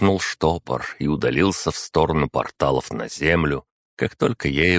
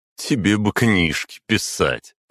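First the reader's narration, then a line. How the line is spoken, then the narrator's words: Laughing. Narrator (Russian): хохотнул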